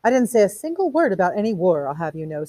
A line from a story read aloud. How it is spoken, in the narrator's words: said Mrs